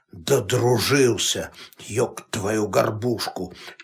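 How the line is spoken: Angry mutter. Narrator (Russian): сердито бормотал Василий

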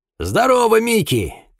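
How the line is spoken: Shouted. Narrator (Russian): крикнул он

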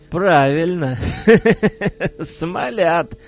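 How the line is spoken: Booming laughter. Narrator (Russian): зычным хохотом оценил шутку хозяина кум

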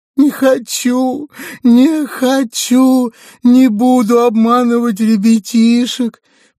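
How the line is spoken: Piglet wailing, sobbing. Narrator (Russian): причитал поросенок, задыхаясь от всхлипов

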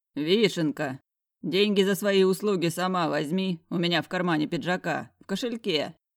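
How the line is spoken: Deep bass voice. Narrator (Russian): пробасил чертов мерзавец

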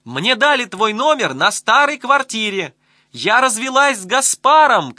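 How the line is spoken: Long-distance shouting. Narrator (Russian): кричала она через города и страны

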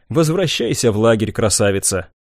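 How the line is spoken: Displeased grumbling. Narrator (Russian): Недовольно проворчала она

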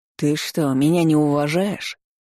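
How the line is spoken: Menacing question, fat man. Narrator (Russian): грозно спросил толстяк

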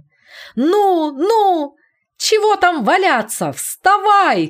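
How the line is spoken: Excited shouting. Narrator (Russian): кричал он возбужденно

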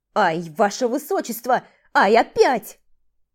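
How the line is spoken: Loud wail behind door. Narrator (Russian): завопил за дверью Титор, забыв напрочь о конспирации

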